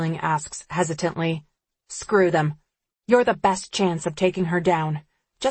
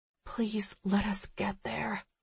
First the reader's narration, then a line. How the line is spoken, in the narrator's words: I whisper